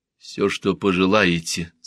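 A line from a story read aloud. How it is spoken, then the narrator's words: Quiet. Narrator (Russian): сказал он тихо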